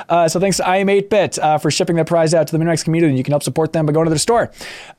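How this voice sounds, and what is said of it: Voice sounds bad, strained. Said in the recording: “my voice is bad”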